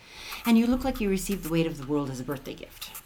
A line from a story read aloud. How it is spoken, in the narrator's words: said, pausing for a moment, then blurting out